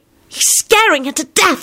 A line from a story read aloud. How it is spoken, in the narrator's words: Solange hissed vehemently